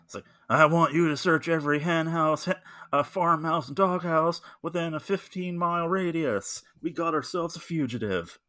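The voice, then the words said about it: Tommy Lee Jones impression. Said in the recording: “a much better Tommy Lee Jones because he can do a pretty good impression of him”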